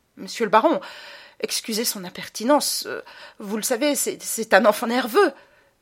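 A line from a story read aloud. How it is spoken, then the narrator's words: Flustered mother stammering. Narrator (French): balbutia encore sa mère, troublée par les regards un peu ironiques des gens qui l'entouraient et la dévisageaient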